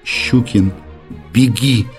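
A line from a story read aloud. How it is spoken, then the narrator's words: Sobbing mumble. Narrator (Russian): промычал он, всхлипывая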